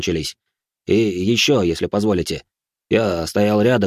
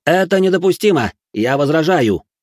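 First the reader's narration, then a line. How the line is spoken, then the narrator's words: Immediate shout. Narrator (Russian): тут же крикнул обвинитель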